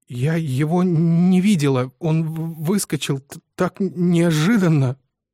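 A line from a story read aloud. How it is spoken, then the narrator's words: Muffled stuttering repetition. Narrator (Russian): Зажав рот рукой, она снова и снова, заикаясь, твердила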